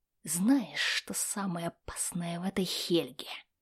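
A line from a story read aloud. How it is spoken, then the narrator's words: Whisper. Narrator (Russian): прошептал Магнус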